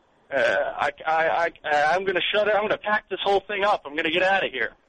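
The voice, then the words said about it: Unconvincing comic impression. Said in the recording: “that was my impression. ... The impression, not so much.”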